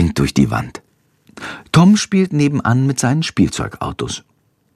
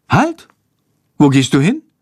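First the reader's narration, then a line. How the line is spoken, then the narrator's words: Mother calling out. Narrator (German): ruft seine Mutter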